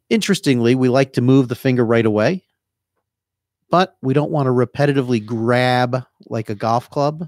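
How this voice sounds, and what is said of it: New Jersey accent. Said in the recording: “My Jersey accent, huh?”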